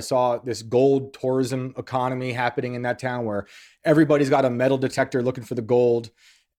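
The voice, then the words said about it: Northern US (Yankee) accent. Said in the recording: “my Yankee accent”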